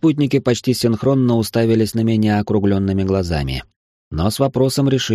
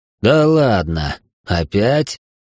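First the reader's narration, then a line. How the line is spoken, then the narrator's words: Moaning. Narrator (Russian): простонал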